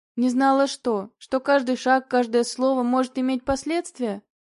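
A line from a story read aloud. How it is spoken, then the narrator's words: Skeptical snort, man. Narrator (Russian): Мужчина скептически хмыкнул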